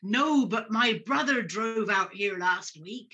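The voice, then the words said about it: Put-on taxi driver character voice. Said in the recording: “I'm doing this voice, but let's stick with it.”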